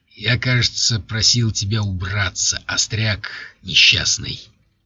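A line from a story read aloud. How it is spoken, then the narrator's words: Hissing. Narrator (Russian): зашипел граф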